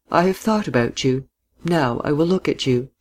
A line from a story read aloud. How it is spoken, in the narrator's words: she said quietly, smiling